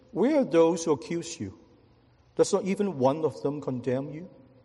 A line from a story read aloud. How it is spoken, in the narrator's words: He said gently